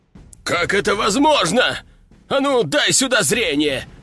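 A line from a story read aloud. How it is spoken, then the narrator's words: Growled. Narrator (Russian): Рыкнул Бомгар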